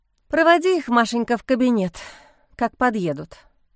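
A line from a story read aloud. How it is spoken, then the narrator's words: Sighing. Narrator (Russian): вздохнула Лиза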